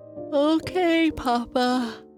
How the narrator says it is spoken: Bernice said with a yawn

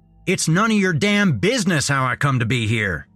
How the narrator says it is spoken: Dale yelled

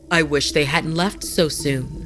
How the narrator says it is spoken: Haru said

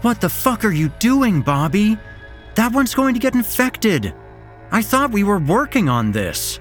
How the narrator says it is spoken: Sam shouted, her voice sounding more concerned than angry

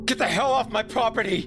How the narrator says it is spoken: I screamed

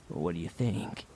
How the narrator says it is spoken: Finn asked quietly

